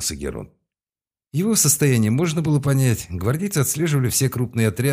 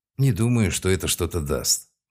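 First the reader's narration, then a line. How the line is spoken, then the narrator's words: Sighing. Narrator (Russian): вздохнул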